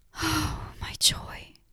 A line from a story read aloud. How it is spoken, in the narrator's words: whispered, mumbling from weariness